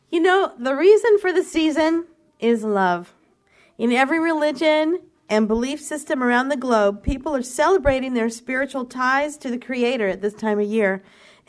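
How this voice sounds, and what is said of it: Voice with a slight cold. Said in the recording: “I have a little bit of a cold”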